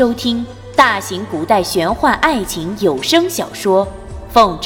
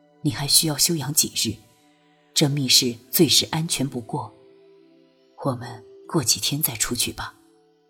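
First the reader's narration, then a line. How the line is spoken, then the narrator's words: Soft voice. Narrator (Chinese): 拓桑……轻声道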